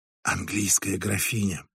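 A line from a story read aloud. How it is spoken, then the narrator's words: Whispered. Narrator (Russian): прошептала Женевьева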